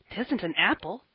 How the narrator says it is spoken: exclaimed Davy

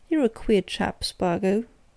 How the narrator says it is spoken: he said

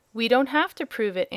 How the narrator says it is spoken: answered Dorothy indignantly

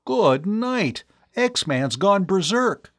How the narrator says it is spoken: Tom cried

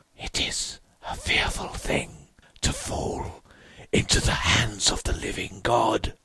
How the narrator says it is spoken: I heard the king in yellow whispering to my soul

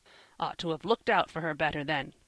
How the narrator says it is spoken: grumbled the old gentleman, determined to find fault with somebody

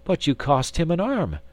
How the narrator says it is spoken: exclaimed Miss Theodosia

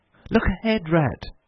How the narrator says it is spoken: cried suddenly

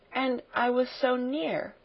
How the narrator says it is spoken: murmured Sarah

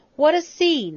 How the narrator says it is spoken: he exclaimed

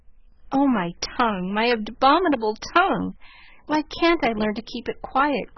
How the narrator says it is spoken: groaned Jo, remembering words which had been her undoing

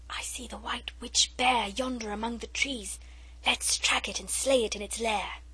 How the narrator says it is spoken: Alice whispered

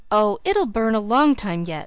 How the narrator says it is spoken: I gasped, for Uncle Blair was whisking us up the hill at a merciless rate

